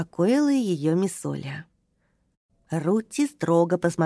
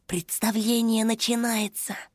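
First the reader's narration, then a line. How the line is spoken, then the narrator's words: Quiet. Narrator (Russian): тихо сказал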